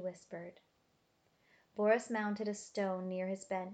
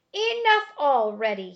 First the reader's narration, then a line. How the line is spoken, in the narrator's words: he screamed